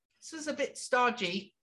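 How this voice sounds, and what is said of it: Put-on English accent. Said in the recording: “we got the English accent.”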